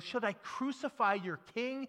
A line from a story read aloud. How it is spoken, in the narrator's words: scream